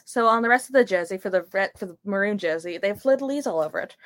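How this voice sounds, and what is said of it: Speaks with a noticeable accent. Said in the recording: “Jay is actively making fun of my accent.”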